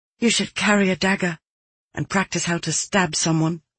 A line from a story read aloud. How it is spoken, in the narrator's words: whispered